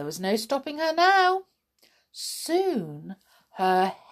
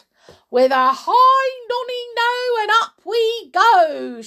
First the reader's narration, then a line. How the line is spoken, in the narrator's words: she shouted